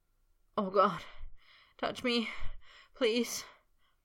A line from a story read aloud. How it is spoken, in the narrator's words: Potter moaned